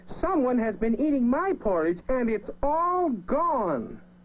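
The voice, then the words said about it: Tiny, small character voice. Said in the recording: “Baby Bear said in his wee little voice”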